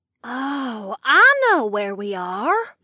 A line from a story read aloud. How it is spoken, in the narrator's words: Matilda breathed